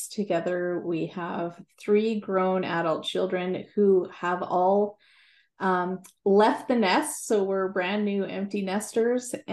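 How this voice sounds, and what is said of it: Canadian accent. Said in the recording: “your beautiful Canadian accent”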